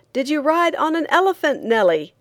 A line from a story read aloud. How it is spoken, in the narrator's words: a man on the limits of it yelled